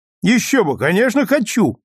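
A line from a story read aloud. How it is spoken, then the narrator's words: Cheerful reply. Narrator (Russian): весело ответил Клайд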